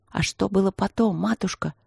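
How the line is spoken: Spellbound child's whisper. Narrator (Russian): шепотом спросил мальчишка, завороженно слушающий историю

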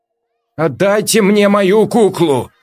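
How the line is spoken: Shout. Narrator (Russian): прокричала Вера

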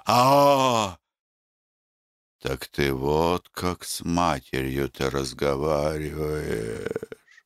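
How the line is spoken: Old woman moaning. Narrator (Russian): застонала старуха

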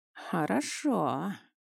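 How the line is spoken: Drawn-out. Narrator (Russian): протянул сын

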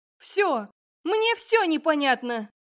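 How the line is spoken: Bursting out shouting. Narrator (Russian): закричала я, и тут меня как прорвало

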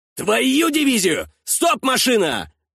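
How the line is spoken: Yelling under fire. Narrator (Russian): заорал Миней, когда в машины прилетело

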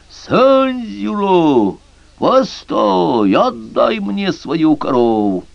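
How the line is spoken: Terrifying witch's scream. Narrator (Russian): ведьма закричала страшным голосом

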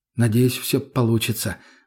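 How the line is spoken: Sighed. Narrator (Russian): вздохнул я

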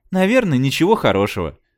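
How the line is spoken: Sighing. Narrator (Russian): вздохнула Джейн

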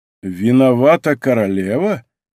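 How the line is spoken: Calm, resonant repetition. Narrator (Russian): повторил Атос своим спокойным и звучным голосом

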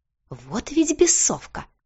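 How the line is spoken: Hiss. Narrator (Russian): прошипел Бьорн

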